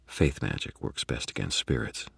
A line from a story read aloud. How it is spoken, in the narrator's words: I said quietly